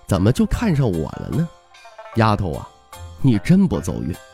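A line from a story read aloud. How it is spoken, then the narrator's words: Soft, gentle. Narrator (Chinese): 徐凤年轻声说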